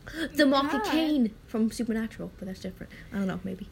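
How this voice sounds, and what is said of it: British-sounding, can't pronounce R's. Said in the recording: “my voice sounds really stupid on a recording, ... sound British ... Many people think I'm hanging out with a British person. She has a speech impediment where she can't pronounce her R's. ... I also stutter.”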